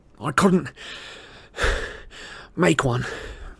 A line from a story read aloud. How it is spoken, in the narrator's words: panted, clutching the stitch in his side